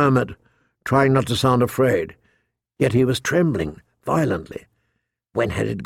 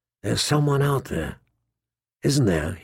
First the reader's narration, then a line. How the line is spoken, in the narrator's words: he whispered